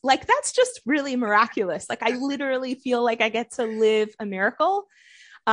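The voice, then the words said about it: American accent. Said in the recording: “as you can hear by my accent, I have a really good American accent.”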